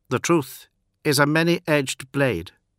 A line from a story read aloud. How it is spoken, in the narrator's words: quoted Sigismund in a flat voice